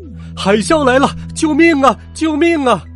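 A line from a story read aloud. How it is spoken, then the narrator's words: Loud panicked shouting. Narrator (Chinese): 没被卷走的人们大声喊道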